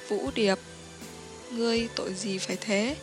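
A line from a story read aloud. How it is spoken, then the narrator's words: Pitying, sighing. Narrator (Vietnamese): giống như thương hại, giống như thở dài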